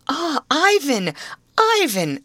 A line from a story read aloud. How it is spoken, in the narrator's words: exclaimed Marie, trembling with joy